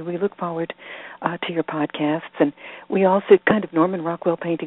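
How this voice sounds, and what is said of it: Hoarse, croaky voice. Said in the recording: “There's a lot of pollen, and that's why I sound like a frog.”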